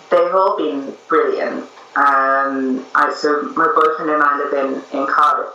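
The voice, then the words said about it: Northern English accent. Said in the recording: “my family are in the north of England, which is why I have this lovely accent.”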